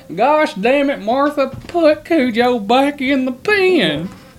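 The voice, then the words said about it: Put-on Kentucky accent. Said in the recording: “then you would hear the Kentucky accent come out.”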